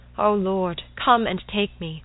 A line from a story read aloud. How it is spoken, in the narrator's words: In her agony she cried out